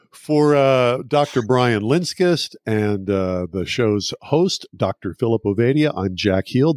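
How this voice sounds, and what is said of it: Polished radio announcer voice. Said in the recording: “He has a great radio voice, man.”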